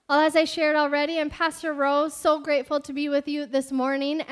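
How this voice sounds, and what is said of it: Worn-out, strained voice. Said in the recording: “my voice is a little like I spent it already in all of our worshiping and preaching”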